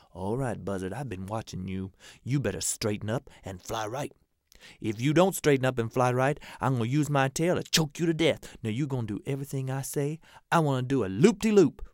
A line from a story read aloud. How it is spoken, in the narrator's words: the monkey whispered in the buzzard's ear, said